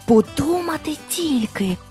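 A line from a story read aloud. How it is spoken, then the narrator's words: Amazed guard whispering. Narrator (Ukrainian): вражено прошепотів вартовий міської брами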